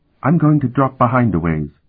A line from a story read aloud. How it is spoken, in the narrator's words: he said very quietly